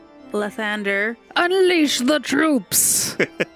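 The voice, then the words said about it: Loud shouted voice. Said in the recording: “in a loud voice, I shout”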